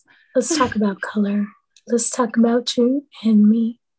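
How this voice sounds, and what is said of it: Sultry, sexy put-on voice. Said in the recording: “put on this voice ... sex voice”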